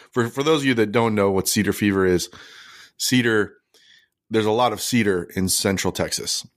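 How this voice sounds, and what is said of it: Voice affected by a cough. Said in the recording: “you can hear it in my voice. I got a little bit of a cough”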